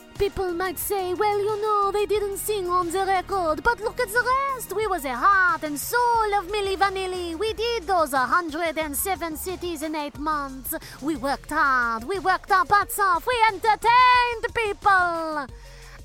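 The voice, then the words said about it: Bad put-on French accent. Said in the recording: “give him a shitty French accent”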